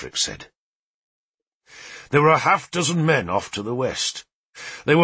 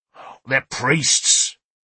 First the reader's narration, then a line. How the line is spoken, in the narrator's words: said savagely